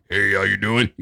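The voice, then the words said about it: Imitates another person's voice. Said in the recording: “that's a really good impression, by the way. ... That was spot on.”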